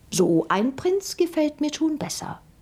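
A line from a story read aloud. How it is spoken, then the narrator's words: Plain. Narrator (German): sagte sie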